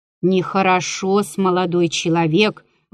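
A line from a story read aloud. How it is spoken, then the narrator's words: Grumbling. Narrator (Russian): ворчал Прокофий Осипыч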